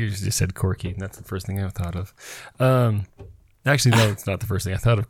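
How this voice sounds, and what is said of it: Usual voice. Nothing is said of it.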